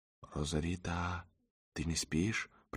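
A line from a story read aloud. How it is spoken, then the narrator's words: Whisper. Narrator (Russian): прошептала Агата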